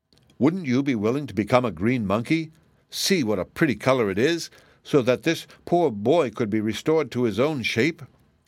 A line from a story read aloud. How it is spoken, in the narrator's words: asked Ginger pleadingly